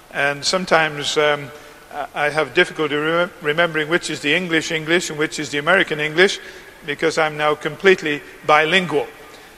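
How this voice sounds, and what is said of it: Mid-Atlantic accent. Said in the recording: “my accent is true mid-Atlantic”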